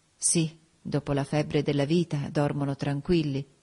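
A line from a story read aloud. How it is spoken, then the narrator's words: Murmuring. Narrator (Italian): mormorai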